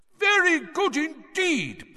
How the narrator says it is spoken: Bagman was shouting

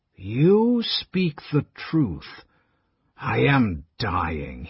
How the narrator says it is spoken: muttered, frustrated, impotent

